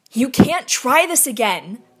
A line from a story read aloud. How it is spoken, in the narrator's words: was shouting